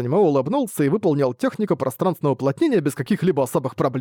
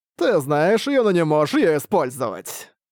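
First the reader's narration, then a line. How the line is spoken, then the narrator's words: Laughing. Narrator (Russian): рассмеялся Ли Тяньсин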